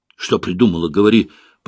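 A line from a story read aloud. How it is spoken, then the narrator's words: Hoarse rasp. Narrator (Russian): прохрипел Свин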